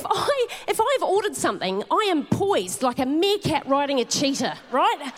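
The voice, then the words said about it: Speaks with a noticeable accent. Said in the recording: “I know I've got an accent, but I think that was recognisable”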